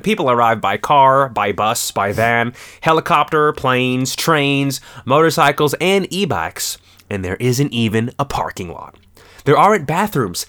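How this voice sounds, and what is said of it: Put-on accent reading a quote. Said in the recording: “Where's the accent?”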